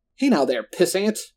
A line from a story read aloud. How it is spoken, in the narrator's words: Roland cried out with indignation